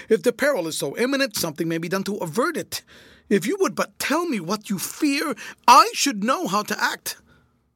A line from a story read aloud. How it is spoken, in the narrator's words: I cried